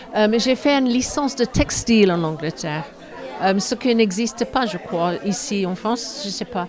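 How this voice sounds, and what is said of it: English accent speaking French. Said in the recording (French): “Je suis anglaise, qu'on entend avec mon accent, bien sûr.”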